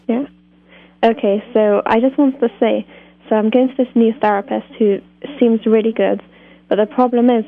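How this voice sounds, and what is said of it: British accent. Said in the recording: “You're calling with a British accent”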